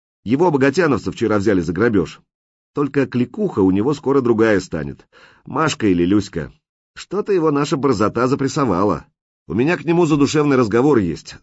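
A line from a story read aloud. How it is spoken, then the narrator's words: Plain. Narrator (Russian): сказал Лис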